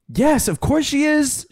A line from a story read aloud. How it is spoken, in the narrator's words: shouted Joe